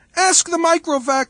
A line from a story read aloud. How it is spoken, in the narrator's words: wailed Geraldette One